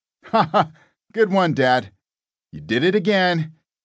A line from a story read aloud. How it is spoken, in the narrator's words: his 26-year-old boy, Hansel, chuckled